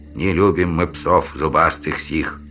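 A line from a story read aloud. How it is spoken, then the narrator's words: Gloomy distant grumbling. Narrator (Russian): мрачно проворчали родственники двумя ветками выше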